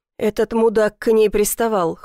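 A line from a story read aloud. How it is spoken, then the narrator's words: Cold. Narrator (Russian): холодно отвечает Морозов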